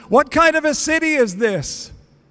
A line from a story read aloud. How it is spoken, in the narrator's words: called out to the elders